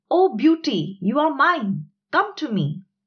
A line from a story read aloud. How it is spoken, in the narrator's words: the hunter shouted